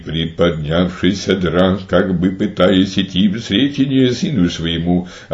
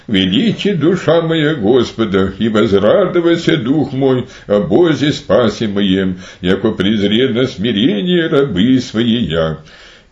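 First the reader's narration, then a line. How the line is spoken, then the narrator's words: Joyful exclamation. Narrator (Russian): Увидев приближение Сына, Матерь Божия с великой радостью воскликнула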